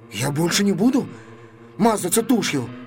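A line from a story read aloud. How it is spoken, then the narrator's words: Faltering babble. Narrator (Russian): пролепетал он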